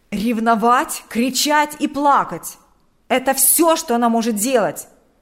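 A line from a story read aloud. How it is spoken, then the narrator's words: Loud indignation. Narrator (Russian): громко возмущался он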